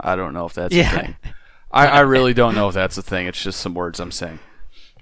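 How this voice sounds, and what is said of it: Hoarse, very low, worn-out voice. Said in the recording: “My voice is kind of gone. ... you got a nice little overtones there ... Molto basso.”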